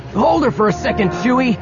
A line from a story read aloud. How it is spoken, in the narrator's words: Han yelled